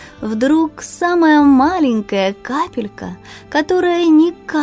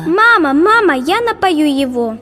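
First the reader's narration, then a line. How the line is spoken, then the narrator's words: Shout. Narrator (Russian): Кричала она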